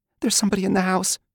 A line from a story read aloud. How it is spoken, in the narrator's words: he said, his voice wavering, unsure